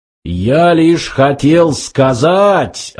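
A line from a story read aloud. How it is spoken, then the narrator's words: Deafening machine roar. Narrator (Russian): оглушительно взревел компьютер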